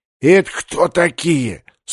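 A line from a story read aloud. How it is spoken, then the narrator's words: Loud whisper. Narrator (Russian): спросил он Жанно громким шепотом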